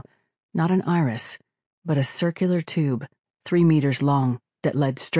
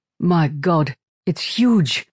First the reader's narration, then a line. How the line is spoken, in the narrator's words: Vishal exclaimed